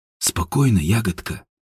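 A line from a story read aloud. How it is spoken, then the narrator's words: Mumbling. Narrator (Russian): пробормотал Степан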